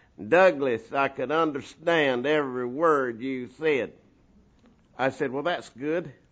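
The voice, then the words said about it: Slow drawling accent. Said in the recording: “kind of a slow accent”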